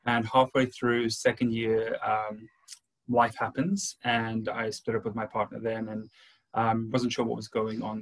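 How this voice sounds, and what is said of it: Slight South African accent. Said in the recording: “I have a bit of an accent. I'm from South Africa originally”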